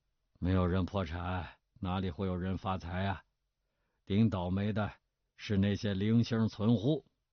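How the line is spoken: Calm. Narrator (Chinese): 王和甫淡淡地说

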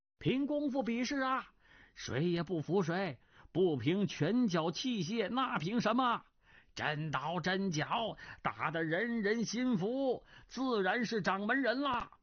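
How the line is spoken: Excited crowd clamoring. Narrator (Chinese): 众人全都兴高采烈，纷纷叫嚷

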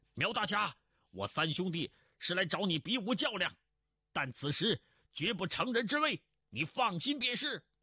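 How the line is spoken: Calling from outside. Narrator (Chinese): 钟兆文在门外叫道

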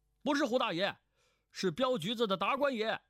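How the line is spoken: Loud. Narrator (Chinese): 那电犯大声道

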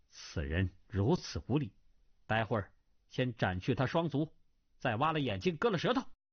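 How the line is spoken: Cold. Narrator (Chinese): 那女子冷冷的道

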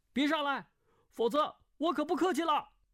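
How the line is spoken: Shouting. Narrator (Chinese): 叫道

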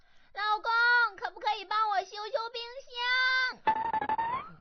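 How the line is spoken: Calling out. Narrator (Chinese): 老婆又喊道说

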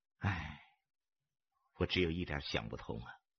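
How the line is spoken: Sighing. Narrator (Chinese): 阿吉叹了口气

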